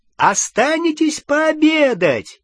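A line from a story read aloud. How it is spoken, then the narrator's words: Shout. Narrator (Russian): крикнул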